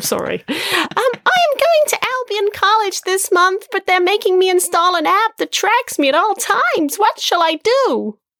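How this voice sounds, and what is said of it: Unbroken boy's voice. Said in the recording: “Your voice hasn't broken yet.”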